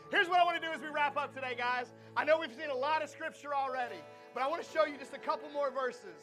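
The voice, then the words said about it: Hoarse, badly worn-out voice. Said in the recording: “That's the worst my voice has ever gone out. That's like worse than Camp 662 voice.”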